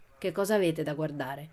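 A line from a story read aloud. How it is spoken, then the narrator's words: Furious lady grumbling. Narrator (Italian): brontolò la signora sempre più furiosa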